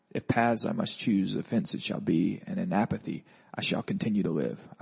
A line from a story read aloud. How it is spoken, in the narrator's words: I whispered to no one